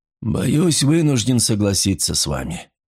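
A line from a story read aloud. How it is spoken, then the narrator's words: Glum voice. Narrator (Russian): уныло проговорил Файндхорн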